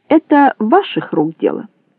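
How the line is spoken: Snorting. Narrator (Russian): Толстяк хмыкнул

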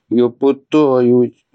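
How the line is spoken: Moaning, gasping nervously. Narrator (Russian): простонал Атхи, нервно хватая ртом воздух

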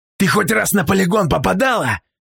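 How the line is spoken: Sharp bark. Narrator (Russian): рявкнул тот

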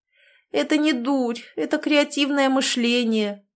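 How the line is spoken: Sad sigh. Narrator (Russian): печально вздохнула я

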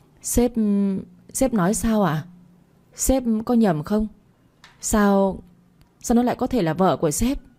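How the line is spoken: Trembling, disbelieving question. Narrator (Vietnamese): bà Bích, khuôn mặt tái xanh, dường như không tin nổi, run rẩy hỏi lại

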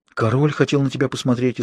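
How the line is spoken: Frightened woman. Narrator (Russian): испуганно ответила она

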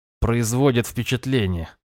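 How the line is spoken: Wry grunt. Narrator (Russian): хмыкнул

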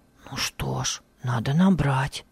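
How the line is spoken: Whispered. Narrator (Russian): прошептал Хармий Авию

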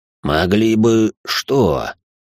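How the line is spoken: Hoarse question, lord. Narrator (Russian): Хрипло спросил лорд

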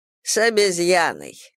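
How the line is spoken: Short laugh. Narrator (Russian): Арчи хохотнул

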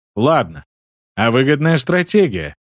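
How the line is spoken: Snorting hum. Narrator (Russian): хмыкнул Хопиш

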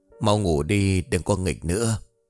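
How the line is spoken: Sighing. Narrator (Vietnamese): Hoa thở dài

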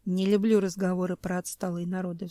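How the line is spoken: Sighing. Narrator (Russian): вздохнул Семен

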